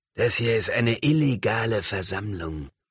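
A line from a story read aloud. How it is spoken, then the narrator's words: Growling. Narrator (German): knurrte Enos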